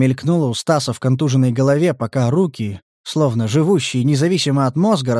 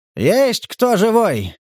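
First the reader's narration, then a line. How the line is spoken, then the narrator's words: Shout then coughing. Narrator (Russian): крикнул силуэт и закашлялся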